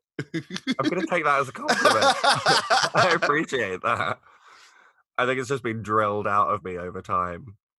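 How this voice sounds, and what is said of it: Posh-sounding London English accent. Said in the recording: “your accent sounds a little bit posher than a typical London accent.”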